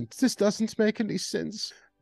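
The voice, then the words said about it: Put-on German accent. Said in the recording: “Or in their German accent”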